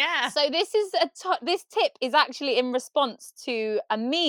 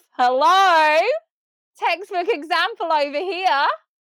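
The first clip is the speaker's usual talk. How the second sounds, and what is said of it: Put-on Australian accent. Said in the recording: “Doing an Australian accent.”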